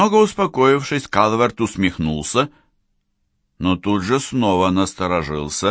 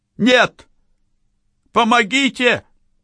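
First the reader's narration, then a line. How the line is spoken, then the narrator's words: Young man shouting. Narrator (Russian): крикнул молодой человек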